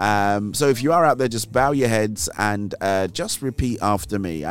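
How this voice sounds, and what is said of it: Usual voice. Nothing is said of it.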